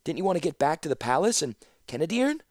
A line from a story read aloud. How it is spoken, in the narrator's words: Sasana gasped and fumbled for words